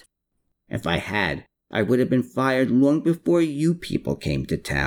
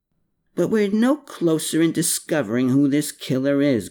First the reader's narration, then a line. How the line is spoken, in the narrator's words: grumbled Klaus